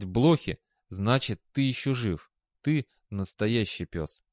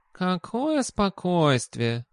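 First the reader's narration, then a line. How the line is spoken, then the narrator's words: Smirking. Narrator (Russian): хмыкнул кот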